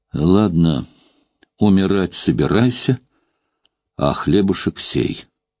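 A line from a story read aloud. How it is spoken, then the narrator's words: Plain. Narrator (Russian): сказал он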